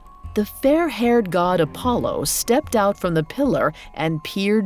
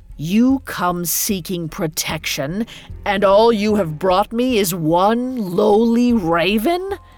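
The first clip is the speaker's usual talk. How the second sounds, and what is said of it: Deep rumbling character voice. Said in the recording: “a deep voice rumbled”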